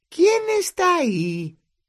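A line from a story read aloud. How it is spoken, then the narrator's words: Shrieking. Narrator (Spanish): chilló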